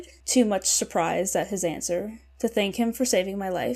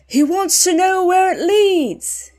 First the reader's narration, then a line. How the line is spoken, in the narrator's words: he shouted